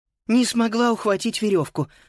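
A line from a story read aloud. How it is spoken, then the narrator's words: Breathless exhale. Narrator (Russian): выдохнула Фрида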